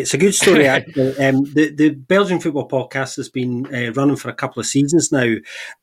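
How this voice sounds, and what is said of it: Scottish accent. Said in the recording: “a little bit of a more, well, European accent than the one that I've got ... a Scottish man”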